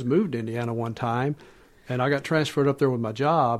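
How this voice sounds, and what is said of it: Southern US accent. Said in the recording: “there was me from the south ... they would ask me about my accent”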